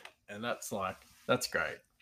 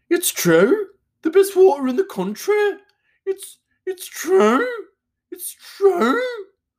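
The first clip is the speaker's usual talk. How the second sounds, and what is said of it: Put-on Birmingham accent. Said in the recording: “what they're known for in Birmingham, this isn't his accent, I'm just going to play on a little bit ... That's a great accent.”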